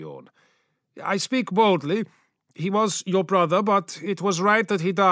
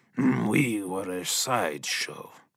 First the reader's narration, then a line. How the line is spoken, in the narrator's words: muttered the Primarch